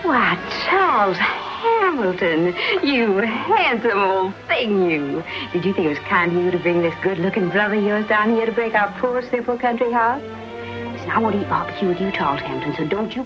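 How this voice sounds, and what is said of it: Spirited Southern belle voice. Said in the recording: “spirited impersonation of the tempestuous Southern Belle”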